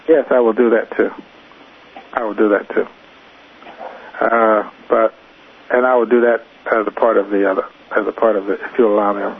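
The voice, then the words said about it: Raspy, hoarse voice. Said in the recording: “I'm getting raspy around the voice and I'm losing my voice”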